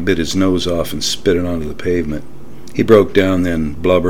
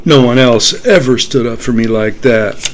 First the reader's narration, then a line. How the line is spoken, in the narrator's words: he cried